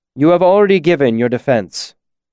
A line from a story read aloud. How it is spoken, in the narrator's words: he said firmly